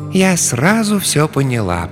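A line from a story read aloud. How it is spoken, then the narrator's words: Soft. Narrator (Russian): произнесла она мягко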